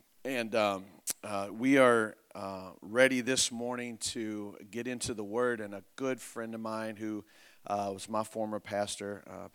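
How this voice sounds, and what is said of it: Worn-out, strained voice. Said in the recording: “My voice is a bit shot from the weekend”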